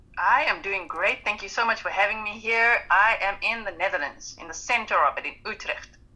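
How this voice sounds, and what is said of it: South African English accent. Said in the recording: “I'm from South Africa, so that's what the accent is all about ... the accent is South African.”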